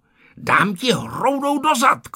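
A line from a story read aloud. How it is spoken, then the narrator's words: Shouting. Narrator (Czech): křičel Ferda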